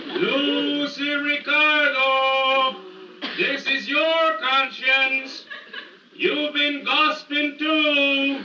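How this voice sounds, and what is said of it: Accented disguised conscience voice. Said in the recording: “My conscience has an accent.”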